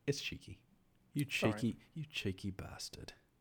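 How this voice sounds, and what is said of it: Impression of Butcher. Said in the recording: “That was my Butcher impression.”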